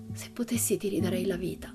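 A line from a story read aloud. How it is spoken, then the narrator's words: Whispered with deep sigh. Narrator (Italian): sussurrò con un profondo sospiro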